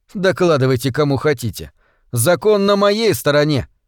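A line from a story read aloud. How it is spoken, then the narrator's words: Growling. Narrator (Russian): Смезерс зарычал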